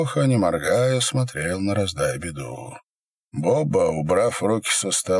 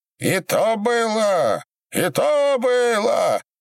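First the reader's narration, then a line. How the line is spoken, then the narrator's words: Shrill cracking shout. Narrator (Russian): Срываясь на петушиный сип, закричал Ларион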